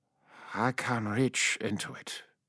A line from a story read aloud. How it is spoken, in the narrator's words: he said quietly